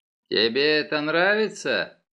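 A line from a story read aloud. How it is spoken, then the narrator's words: Mocking question. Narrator (Russian): насмешливо спросил Тео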